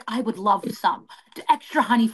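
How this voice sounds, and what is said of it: Imitates another person's voice. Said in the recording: “get the accent like right, sweet. Because he talks like a pro wrestler.”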